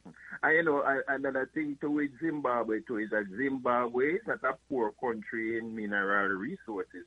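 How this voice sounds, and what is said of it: Caribbean accent. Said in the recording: “What part of the Caribbean is home to you? I hear the accent.”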